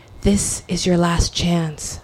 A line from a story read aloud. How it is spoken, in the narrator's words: my body whispered